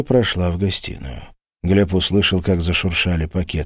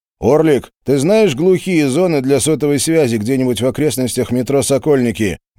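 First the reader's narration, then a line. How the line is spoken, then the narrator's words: Loud question. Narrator (Russian): громко спросил Глеб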